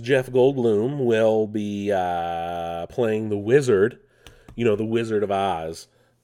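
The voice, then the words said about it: Bad Jeff Goldblum impression. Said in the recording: “my terrible Jeff Goldblum impression”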